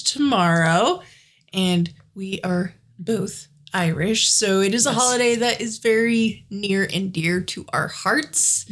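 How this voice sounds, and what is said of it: Slightly gravelly voice with sniffles. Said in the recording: “I do have a little cold. So if there are sniffles and or throat clearing, that is why. And if my voice is a little gravelly, that is why.”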